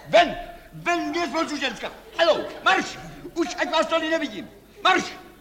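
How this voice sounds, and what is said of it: Shouting. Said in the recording (Czech): “Nekřičte.”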